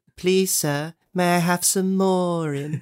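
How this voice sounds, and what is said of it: Poor Oliver Twist imitation. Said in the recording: “that terrible impression”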